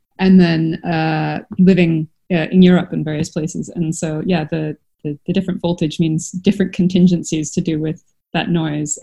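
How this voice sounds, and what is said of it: Canadian English accent. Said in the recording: “As you can tell from my accent, I'm from Canada.”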